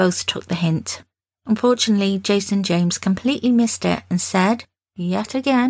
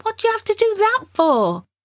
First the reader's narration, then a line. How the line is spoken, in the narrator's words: shouting